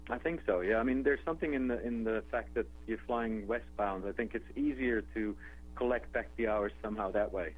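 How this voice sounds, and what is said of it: Dutch accent. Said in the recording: “As you can tell from my accent, I'm not from the U.S. I'm from Holland originally”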